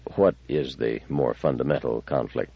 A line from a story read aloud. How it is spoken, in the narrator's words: he said quietly, almost tentatively